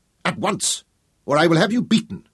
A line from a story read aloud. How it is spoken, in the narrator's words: she snapped